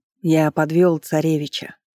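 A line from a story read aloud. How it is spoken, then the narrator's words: Dejected village elder. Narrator (Russian): упавшим голосом сказал староста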